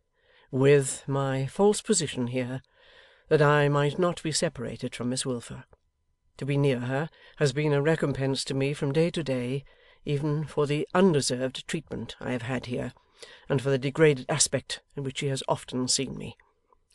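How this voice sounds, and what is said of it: Low, quiet voice. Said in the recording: “said the secretary in a low voice”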